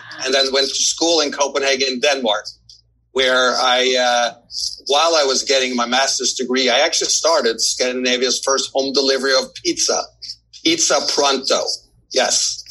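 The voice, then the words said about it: Norwegian accent in English. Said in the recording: “they may pick up on the fact I have an accent ... the accent is not from Brooklyn. So I'm actually originally from Norway”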